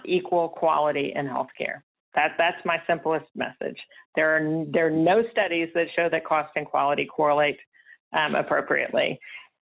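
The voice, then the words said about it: Texas accent. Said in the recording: “with a Texas accent”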